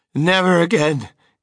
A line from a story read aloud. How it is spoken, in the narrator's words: gasped Mrs